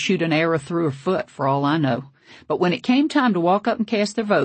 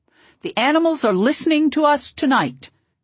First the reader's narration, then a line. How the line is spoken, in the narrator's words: Tatakuvadundu yelled out and kind of started singing with his eyes closed